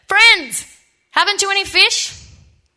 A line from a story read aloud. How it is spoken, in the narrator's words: Jesus called out to them